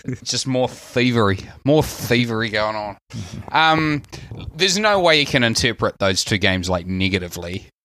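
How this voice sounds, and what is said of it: New Zealand accent. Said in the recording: “accent, I've been accused of being an Australian so many times I've lost count... My Kiwi accent, I'm so Kiwi, I'm Australian”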